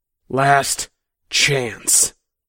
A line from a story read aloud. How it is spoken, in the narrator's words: Kevin hissed